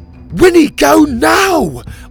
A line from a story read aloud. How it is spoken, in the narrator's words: Oliver shouted, struggling to fight off the rest of the horde